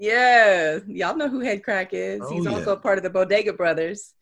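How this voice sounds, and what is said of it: Usual voice. Nothing is said of it.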